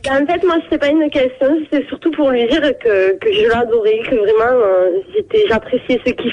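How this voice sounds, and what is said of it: Pleasant regional accent. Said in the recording (French): “comme c'est beau cet accent”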